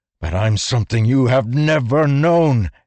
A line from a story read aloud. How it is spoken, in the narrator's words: Kaladin shouted